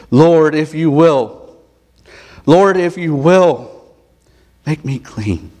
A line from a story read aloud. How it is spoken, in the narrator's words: begs and he pleads